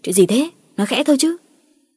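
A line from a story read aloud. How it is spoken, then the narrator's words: Two voices snapping. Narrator (Vietnamese): Cả Ngọc và Quyết gắt lên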